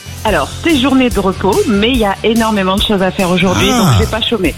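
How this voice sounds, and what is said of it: Slight southern French regional accent. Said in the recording (French): “il y a le petit accent, je reconnais”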